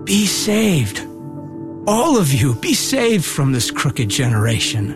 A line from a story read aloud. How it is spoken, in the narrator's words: he bore witness to them, pleaded with them, saying